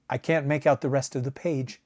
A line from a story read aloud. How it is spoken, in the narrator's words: answered Griswell